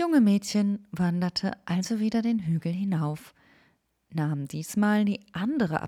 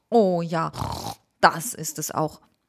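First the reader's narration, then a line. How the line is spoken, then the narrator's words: Grunting boar. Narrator (German): grunzte Frau Wildschwein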